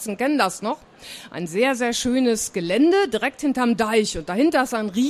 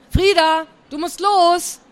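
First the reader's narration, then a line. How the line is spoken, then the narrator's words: Called from outside. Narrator (German): rief Tante Sigi draußen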